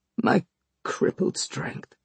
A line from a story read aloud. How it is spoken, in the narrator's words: he murmured regretfully